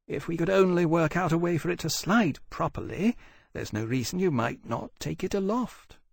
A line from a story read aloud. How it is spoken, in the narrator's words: said wistfully